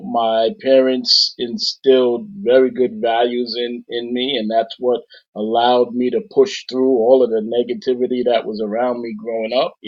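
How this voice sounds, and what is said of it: New York accent. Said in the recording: “I hear the accent coming through, the New York accent.”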